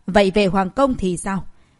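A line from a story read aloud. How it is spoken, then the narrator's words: Stern question. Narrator (Vietnamese): Cao Minh Lăng nghiêm giọng hỏi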